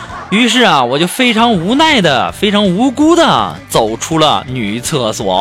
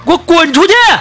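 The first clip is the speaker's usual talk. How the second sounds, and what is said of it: Angry shouting. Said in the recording (Chinese): “你别喊了，别喊了。”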